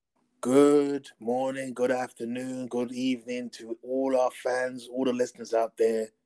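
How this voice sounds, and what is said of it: Raspy voice. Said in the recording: “Forgive the voice, it's a bit kind of raspy”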